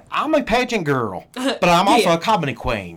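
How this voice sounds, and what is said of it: Country accent impression. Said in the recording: “I always hear that country accent.”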